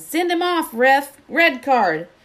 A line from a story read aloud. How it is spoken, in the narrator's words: Dean Thomas was yelling